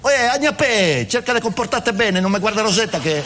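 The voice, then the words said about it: Imitated Roman dialect voice. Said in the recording (Italian): “Celentano romano”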